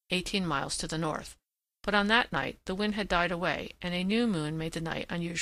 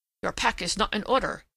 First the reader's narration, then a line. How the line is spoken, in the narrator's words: he said sharply